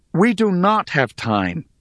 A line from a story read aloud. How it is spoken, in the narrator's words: exclaimed